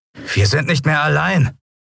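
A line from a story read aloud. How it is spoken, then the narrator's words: Sudden call. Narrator (German): rief Telbo plötzlich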